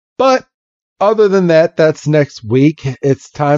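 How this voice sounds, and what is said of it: Usual voice. Nothing is said of it.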